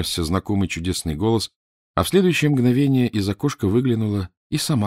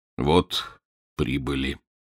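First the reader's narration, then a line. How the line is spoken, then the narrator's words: Muffled voice. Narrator (Russian): глухим голосом сказал подошедший Данила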